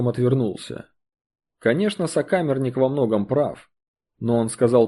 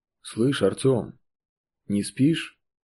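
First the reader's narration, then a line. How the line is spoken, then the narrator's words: Quiet undertone. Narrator (Russian): Тихо вполголоса поинтересовался сокамерник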